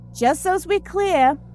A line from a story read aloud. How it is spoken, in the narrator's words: she shouted at the zombie